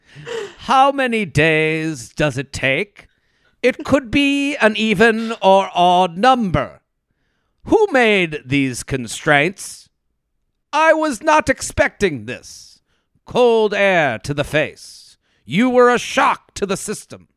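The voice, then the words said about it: Dramatic poetry-reading voice. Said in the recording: “read it in my best poetry voice.”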